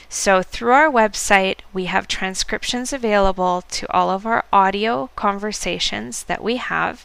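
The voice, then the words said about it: American English accent. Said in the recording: “you can probably tell by my voice that I'm speaking with American English, not British English”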